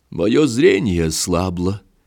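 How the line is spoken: Sad. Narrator (Russian): сказал он печально

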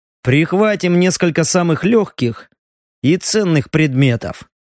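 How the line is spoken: Grim. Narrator (Russian): мрачно сказал он

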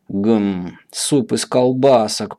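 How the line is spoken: Satisfied muttering. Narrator (Russian): пробормотала графиня, удовлетворенно

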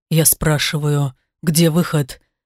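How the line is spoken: Angry, through teeth. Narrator (Russian): процедил со злостью

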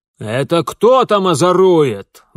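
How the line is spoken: Barked. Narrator (Russian): рявкнул человек

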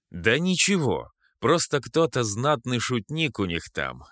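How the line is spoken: Plain, after a pause. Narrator (Russian): наконец сказал я

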